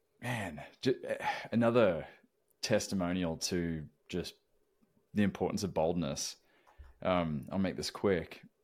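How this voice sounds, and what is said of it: Southern Tennessee accent. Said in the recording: “growing up here in the South, if people didn't already recognize by my accent, I'm a Tennessee boy through and through.”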